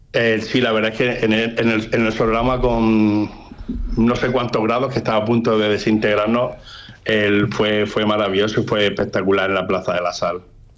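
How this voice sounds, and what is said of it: Murcian Spanish accent. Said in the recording (Spanish): “ese acento te delata ... de Alcázar de San Juan no eres ... Yo soy de Murcia.”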